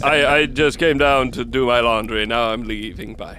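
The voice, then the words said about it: Thick Count Dracula accent. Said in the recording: “I'm actually ditching the accent now, too ... Only halfway ... His accent was extremely thick.”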